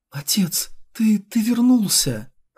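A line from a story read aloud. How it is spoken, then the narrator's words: Trembling voice. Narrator (Russian): Анжела дрожащим голосом произнесла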